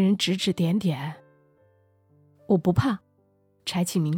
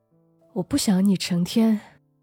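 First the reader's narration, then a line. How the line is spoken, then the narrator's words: Sighing. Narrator (Chinese): 子杰叹了口气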